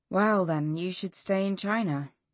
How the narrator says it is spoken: my aunt said gravely

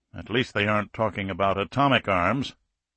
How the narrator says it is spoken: Rajkov grunted

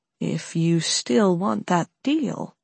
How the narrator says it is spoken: Alex murmured softly, leaning in close to Carla

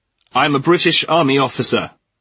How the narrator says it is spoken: Alistair shouted

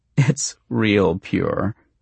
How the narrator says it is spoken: she said and giggled

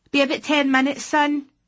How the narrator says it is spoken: shout

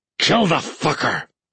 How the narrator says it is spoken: he snarled

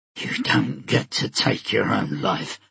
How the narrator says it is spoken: Stike snarled

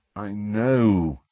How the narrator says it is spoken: said Harry wearily

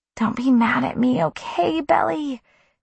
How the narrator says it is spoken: pleaded

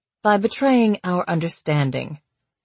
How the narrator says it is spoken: said coldly

